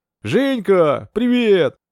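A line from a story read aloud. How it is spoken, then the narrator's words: Near-yell into phone. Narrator (Russian): почти заорал в трубку Лисовский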